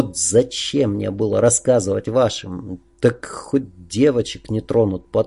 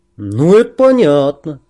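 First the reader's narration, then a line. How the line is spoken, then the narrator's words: Almost cheerful agreement. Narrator (Russian): почти весело согласился Олег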